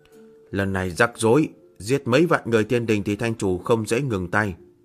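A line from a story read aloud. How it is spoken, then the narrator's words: Worried muttering. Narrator (Vietnamese): Nữ nhân áo trắng lẩm bẩm nhíu mày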